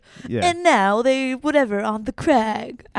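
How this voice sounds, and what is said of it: Poor put-on British accent. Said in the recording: “That was a terrible British accent. That was just an American voice slightly changed... It was just my voice.”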